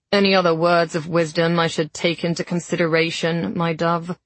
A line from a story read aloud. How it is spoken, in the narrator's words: He asked flatly